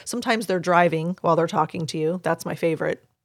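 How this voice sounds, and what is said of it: Sarcastic tone. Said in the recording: “There was sarcasm there.”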